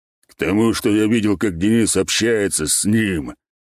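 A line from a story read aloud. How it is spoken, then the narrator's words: Snort. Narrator (Russian): хмыкнул вепрь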